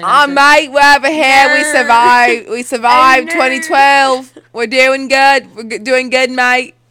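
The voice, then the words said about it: Loud put-on Australian accent. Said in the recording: “Why do when you do an Australian accent, you yell?”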